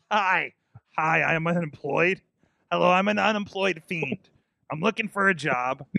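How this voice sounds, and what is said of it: Imitates another person's voice. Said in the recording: “I don't know why I'm still doing the Seth Rollins voice with this mask on.”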